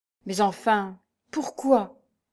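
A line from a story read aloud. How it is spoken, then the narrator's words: Stammering. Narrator (French): balbutia-t-il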